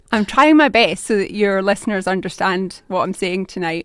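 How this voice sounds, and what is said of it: Glaswegian Scottish accent. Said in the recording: “That's a Scottish accent, isn't it? ... It is indeed a Glaswegian accent.”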